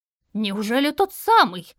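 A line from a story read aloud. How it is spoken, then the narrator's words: Old man exclaiming. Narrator (Russian): воскликнул старец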